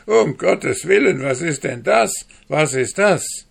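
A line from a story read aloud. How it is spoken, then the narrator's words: Horrified cry. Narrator (German): rief mit Entsetzen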